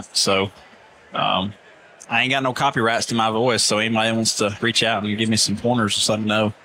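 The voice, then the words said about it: Strong Southern accent. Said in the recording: “Got that strong Southern accent.”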